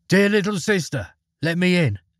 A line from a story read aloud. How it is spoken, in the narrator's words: he knocked and called out